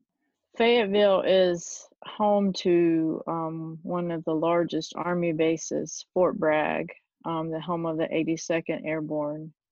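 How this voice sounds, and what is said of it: Southern American accent. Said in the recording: “I'm obviously Southern from my accent.”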